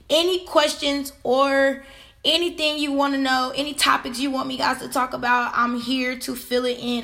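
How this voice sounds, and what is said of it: Hoarse, nearly lost voice. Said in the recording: “I lost my voice.”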